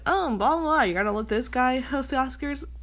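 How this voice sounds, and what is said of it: Mocking, exaggerated voice. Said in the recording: “I did that mocking voice”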